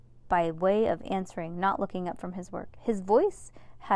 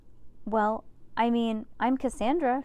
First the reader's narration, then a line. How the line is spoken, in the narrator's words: she stammered